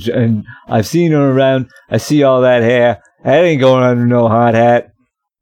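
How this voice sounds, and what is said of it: Exaggerated mumbled Boston accent. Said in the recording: “you're doing a Boston accent of someone that was, like, punched in the mouth ... They got me to do this Boston accent, and it's not working.”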